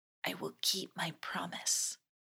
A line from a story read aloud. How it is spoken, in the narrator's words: Mako whispered in her ear